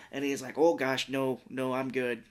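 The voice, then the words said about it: Minnesotan accent, imitating another person. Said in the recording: “doing that voice because that's how he sounds like that in Fargo. ... From Minnesota. ... doing William H. Macy”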